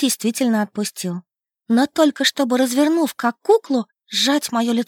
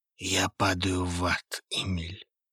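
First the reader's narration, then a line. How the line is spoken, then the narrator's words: Hoarse close whisper. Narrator (Russian): хрипло прошептал мне в губы Хейвуд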